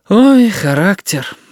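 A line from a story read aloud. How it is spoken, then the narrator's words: Sighing. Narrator (Russian): вздохнула тетя Галя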